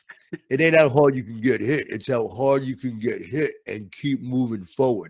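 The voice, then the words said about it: Imitates Rocky Balboa's voice. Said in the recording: “never done that impersonation live before”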